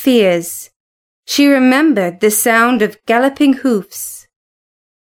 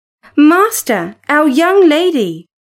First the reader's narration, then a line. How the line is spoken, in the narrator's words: cried